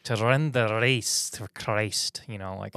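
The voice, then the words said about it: Put-on Scottish accent. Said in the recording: “that almost sounded Scottish ... that's my Scottish one”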